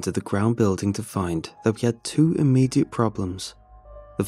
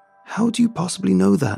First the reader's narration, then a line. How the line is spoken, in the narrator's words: Alex cried